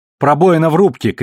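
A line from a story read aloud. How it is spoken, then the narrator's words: Shout. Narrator (Russian): крикнула Наоми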